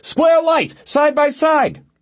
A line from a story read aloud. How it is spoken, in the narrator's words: Eleanor shouted